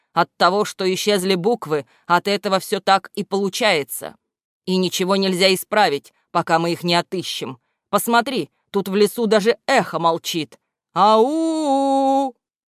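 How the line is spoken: Loud shout. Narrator (Russian): громко крикнул Мудрослов

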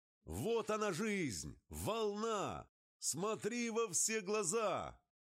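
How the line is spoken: Shouting. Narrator (Russian): Он кричал

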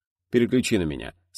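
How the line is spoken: Calm reply. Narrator (Russian): спокойно ответил Титов

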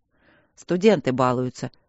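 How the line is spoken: Through gritted teeth. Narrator (Russian): процедил Трот

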